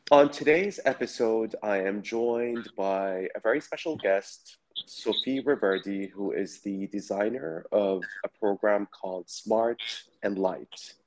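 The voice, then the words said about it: Raspy, hoarse voice. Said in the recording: “my raspy voice because I've been down with the flu for the last 3 days, so my voice might be a little bit raspy”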